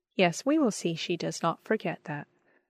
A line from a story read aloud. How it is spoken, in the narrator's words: said my father with a kindly smile